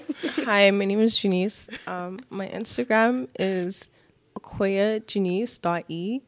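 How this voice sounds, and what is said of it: Soft, gentle speaking voice. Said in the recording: “your podcast voice is too soft”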